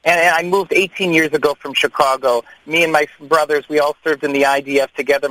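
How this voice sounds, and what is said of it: American English accent. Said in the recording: “you hear my English, I sound like an American.”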